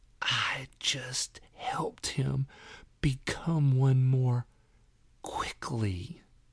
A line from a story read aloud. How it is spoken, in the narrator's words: in a raspy whisper